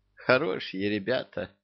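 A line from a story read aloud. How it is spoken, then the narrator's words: Captive's sigh. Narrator (Russian): вздохнула пленница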